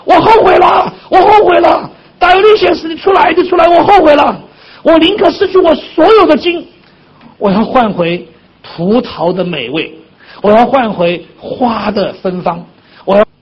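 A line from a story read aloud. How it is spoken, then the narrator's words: Loud desperate shouting. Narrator (Chinese): 他大声呼喊，他说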